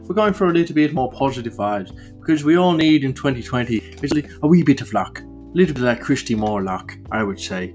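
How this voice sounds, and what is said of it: Jolly put-on Irish accent. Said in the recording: “we're doing the accent again, with a more jolly Irish accent than a dreary one”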